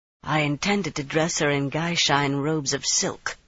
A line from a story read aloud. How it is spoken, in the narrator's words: she muttered